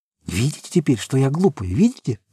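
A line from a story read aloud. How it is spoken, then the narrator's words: Whisper. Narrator (Russian): зашептала Сима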